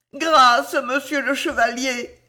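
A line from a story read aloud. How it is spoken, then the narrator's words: Moaned plea. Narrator (French): gémit l'un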